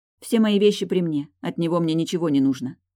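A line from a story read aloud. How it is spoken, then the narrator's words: Sharp speech. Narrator (Russian): говорю резко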